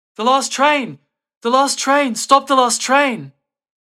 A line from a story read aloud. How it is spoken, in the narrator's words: he began shouting at the top of his lungs